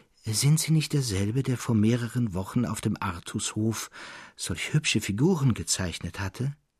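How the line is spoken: Young man, quietly. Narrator (German): sagte der Jüngling leise zu Traugott

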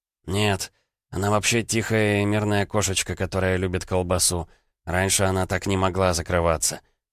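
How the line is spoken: Irritated. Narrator (Russian): раздраженно повел плечами Дубов

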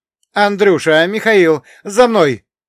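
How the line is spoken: Shouted. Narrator (Russian): крикнул Дмитрий

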